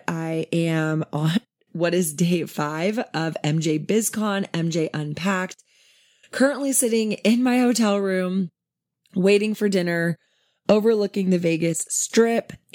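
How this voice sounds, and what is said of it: Worn-out, strained voice. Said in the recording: “my voice is super shot... just super exhausted”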